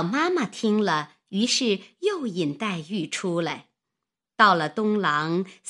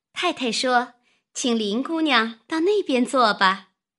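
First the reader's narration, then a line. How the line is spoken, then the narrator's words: Maid laughing. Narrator (Chinese): 丫鬟……笑道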